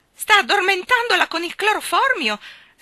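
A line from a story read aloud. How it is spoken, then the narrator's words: Aunt shrieking. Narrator (Italian): strillò la zia Mauser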